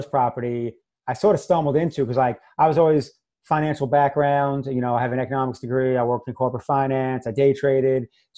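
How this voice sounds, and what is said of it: New York accent. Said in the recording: “I'm originally from New York, which most people probably heard the accent already ... my New York accent”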